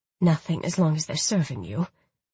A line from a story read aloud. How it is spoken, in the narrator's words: she said softly